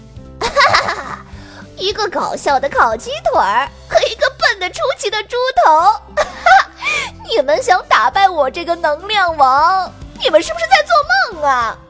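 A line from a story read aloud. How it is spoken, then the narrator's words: Mocking laughter. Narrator (Chinese): 破坏大王笑得合不拢嘴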